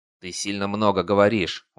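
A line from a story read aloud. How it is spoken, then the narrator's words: Leader's threatening grumble. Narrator (Russian): угрожающе пробурчал главный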